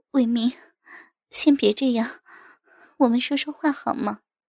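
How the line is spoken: Breathless, low coaxing voice. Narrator (Chinese): 扭着身体拒绝着我，娇喘着低声说

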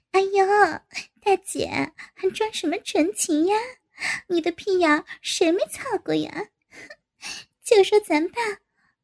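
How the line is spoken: Mocking laugh. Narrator (Chinese): 赵颖在一边笑道

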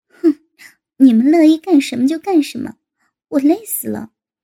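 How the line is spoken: Scowling laugh. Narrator (Chinese): 高志新横着脸 笑道

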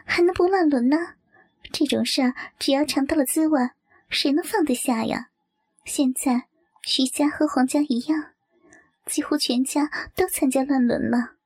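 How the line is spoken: Laughing. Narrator (Chinese): 柳月笑道

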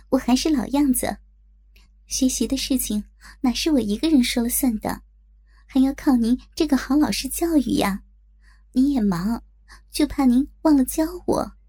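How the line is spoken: Smiling. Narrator (Chinese): 我笑着说

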